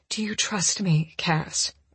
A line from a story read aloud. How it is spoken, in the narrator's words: I whisper